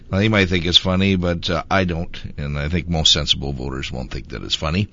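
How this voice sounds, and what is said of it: Squeaky voice from illness. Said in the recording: “squeaky voice, but I'm still suffering from the flu”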